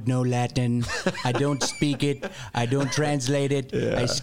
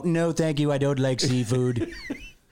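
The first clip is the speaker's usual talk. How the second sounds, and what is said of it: Imitates another person's voice. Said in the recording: “That's a very good imitation.”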